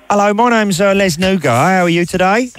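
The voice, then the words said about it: Poor put-on Cockney accent. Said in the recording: “putting on a shonky Cockney voice.”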